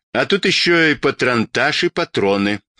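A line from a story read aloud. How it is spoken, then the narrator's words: Anguished moan. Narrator (Russian): с тоской простонал дядя Сёма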